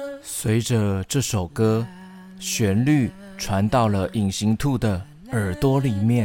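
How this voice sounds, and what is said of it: Usual voice. Nothing is said of it.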